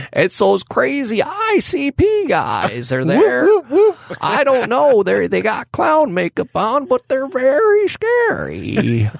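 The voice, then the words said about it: Put-on old man voice. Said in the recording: “I have no idea what voice I'm doing or why I'm doing it. I was trying to do this like my old man voice.”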